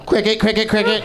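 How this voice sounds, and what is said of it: Imitates a cricket noise. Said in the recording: “my impression of a cricket noise”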